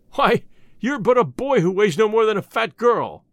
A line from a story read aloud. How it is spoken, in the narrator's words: exclaimed their captain, a great bony fellow